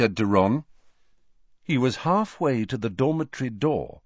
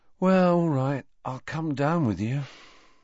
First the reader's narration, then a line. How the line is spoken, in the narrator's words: sighed Ron